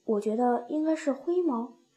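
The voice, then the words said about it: Quiet, soft-spoken line. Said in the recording (Chinese): “小声地说”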